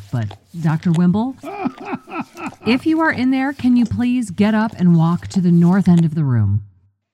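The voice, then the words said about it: Yelling. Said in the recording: “I'm yelling”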